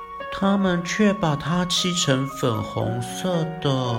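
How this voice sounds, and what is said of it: Usual voice. Nothing is said of it.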